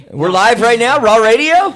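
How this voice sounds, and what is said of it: Shouting, very loud voice. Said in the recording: “you don't have to shout. ... I shout. I'm a big shouter. ... I'm going to need you about 2 feet away from the mic.”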